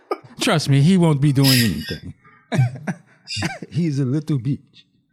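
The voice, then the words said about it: Put-on Wakandan accent. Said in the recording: “you had the Wakandan accent”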